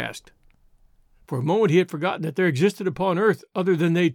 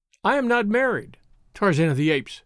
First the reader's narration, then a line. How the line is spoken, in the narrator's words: cried